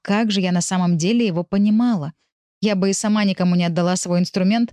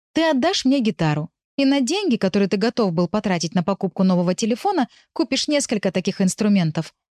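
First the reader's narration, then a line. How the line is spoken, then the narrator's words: Plain. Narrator (Russian): сказала я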